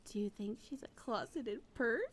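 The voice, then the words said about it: Whispering. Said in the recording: “Stop whispering to each other!”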